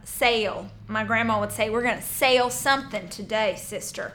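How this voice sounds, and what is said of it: Regional accent, 'sell' sounds like 'sale'. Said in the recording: “I'm sorry, my accent shows up.”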